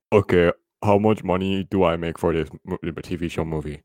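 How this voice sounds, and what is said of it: Unconvincing low imitation of another person. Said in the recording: “Why is your voice shifting again? ... My voice is just very actually low. ... Your Gino Carano is actually very unconvincing”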